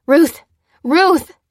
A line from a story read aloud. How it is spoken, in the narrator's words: cried Lucy